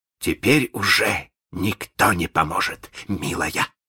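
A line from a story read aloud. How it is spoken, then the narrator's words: Gloating hiss. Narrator (Russian): злорадно прошипел Малинс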